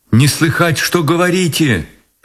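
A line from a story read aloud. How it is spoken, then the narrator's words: Shouted. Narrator (Russian): прокричала она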